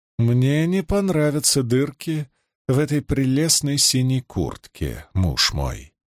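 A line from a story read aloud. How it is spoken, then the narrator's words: Quiet private murmur. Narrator (Russian): произнесла она тихо, чтобы слышал только он один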